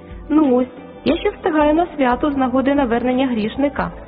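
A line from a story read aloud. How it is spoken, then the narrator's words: Cheerful calling angel. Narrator (Ukrainian): весело гукнув ангел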